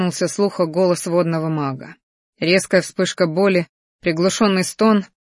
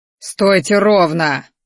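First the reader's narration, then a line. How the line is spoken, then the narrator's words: Growled. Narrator (Russian): рыкнул ректор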